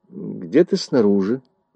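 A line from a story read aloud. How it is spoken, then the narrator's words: Indifferent mumble. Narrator (Russian): промямлил Ун, словно ему было все равно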